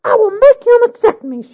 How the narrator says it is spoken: she cried

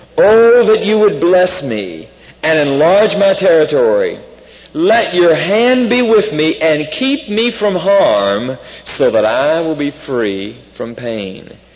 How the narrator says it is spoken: Jabez cried out to the God of Israel

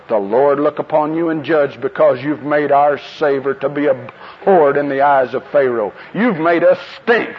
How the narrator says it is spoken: they said

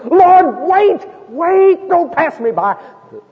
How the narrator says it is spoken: screaming out to the best of his ability

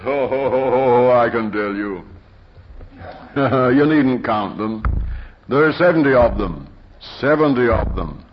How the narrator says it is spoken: with a sarcastic laugh, he says

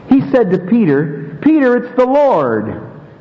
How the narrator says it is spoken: exclaimed

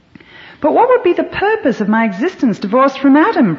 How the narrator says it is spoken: Prime Rib cried

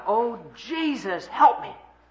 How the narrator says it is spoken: she just panicked, she just cried out, she screamed out

